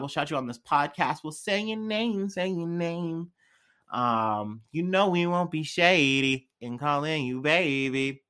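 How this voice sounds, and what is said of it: Bad put-on accent. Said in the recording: “I don't know why I'm doing this bad accent.”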